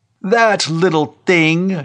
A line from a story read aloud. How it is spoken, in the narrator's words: Shanley cried scornfully